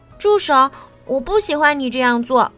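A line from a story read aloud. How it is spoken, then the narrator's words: Loud repetition. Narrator (Chinese): 吉米大声重复道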